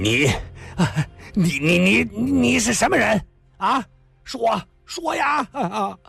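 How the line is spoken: Loud but trembling. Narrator (Chinese): 他虽然尽量说得大声些，可是这声音偏偏有些发抖

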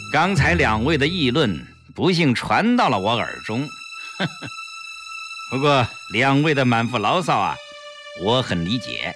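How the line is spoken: Repeated sneering. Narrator (Chinese): 段桑田连连冷笑

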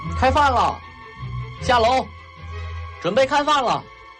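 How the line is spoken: Distant shout from outside. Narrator (Chinese): 外面传来了童副官的喊声

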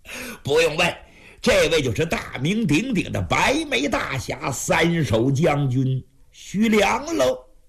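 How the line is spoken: Feigned smile. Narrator (Chinese): 冯魁章假意带笑

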